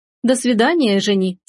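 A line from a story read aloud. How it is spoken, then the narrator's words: Plain. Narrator (Russian): сказала Рита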